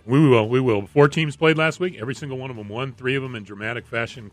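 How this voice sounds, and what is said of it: Congested voice from a cold. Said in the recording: “Got a little bit of a cold here, so sorry about my voice,”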